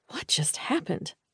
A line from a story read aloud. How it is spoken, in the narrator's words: I whispered